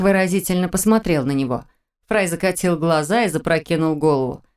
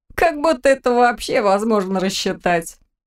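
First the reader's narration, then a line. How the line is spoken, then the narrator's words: Ringing laughter. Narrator (Russian): Он заливисто рассмеялся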